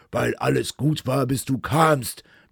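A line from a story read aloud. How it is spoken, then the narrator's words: Hateful roar from a skull. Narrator (German): brüllte der Schädel meines Vaters, voller Hass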